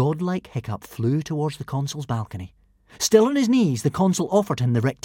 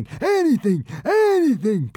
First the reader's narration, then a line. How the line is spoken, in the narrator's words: pleaded